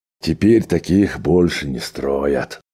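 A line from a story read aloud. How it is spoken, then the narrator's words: Male sigh. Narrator (Russian): вздохнул Джо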